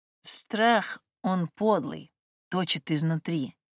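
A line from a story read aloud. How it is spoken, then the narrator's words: Slow, neighbor. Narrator (Russian): медленно произнесла соседка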